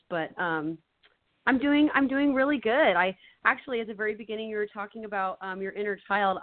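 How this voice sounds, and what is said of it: Strained, worn-out voice. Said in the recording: “my voice is a little shot, so I'm sorry if my voice doesn't come through very clear”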